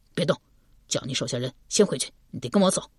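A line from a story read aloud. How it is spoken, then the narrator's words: Low voice. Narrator (Chinese): 低声道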